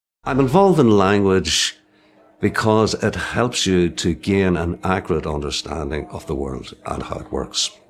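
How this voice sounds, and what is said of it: Strong Irish accent. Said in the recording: “爱尔兰口音像 Irish breakfast 一样味道浓郁 ... Irish accents”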